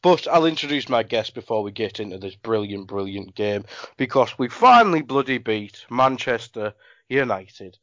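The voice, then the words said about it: Sniffly, slightly congested voice. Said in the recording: “I have a bit of a cold. ... if I'm a bit sniffly in this podcast”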